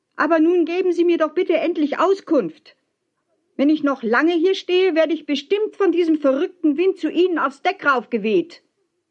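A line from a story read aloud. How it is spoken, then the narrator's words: Shouting back. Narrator (German): schrie zurück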